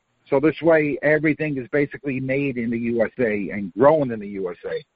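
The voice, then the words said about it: Queens New York accent. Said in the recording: “you're not from Florida from your accent ... I was born and raised in Queens, New York ... It's one of those accents”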